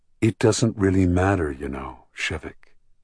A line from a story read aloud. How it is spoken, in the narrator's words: she said very gently, with kindness